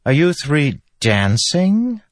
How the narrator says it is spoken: a voice suddenly piped up

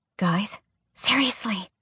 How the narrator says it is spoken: Alex whispered

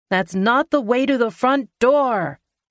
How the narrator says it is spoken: I yell

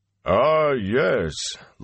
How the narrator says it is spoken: Loyal boomed

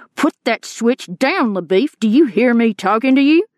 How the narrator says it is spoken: Rooster raised his voice and said

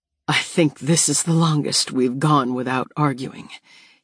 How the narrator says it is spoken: he murmurs

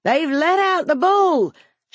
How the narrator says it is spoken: she hollered

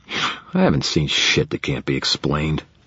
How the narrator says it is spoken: Rudolph growled

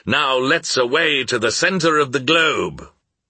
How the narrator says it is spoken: exclaimed the professor, adding in Danish

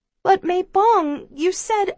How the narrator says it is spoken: I plead in a small voice

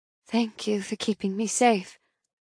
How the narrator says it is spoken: I murmur

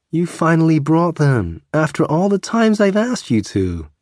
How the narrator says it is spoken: the cafe owner exclaimed

